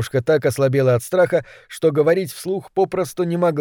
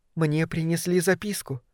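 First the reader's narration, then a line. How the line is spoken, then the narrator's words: Whisper. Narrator (Russian): прошептала она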